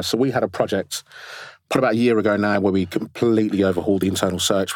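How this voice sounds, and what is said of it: Strained, failing voice. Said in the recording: “I'm losing my voice.”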